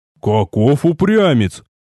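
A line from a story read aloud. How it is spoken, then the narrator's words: Respectful yet displeased snort. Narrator (Russian): С настоящим уважением в голосе и одновременно недовольством хмыкнул дядюшка Истогвий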